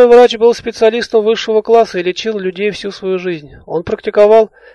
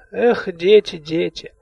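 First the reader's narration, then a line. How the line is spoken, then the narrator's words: Distant muffled grumbling, fading. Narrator (Russian): Донеслось из-за спины приглушенное бурчание военврача, и удаляющиеся шаркающие шаги заглушили конец фразы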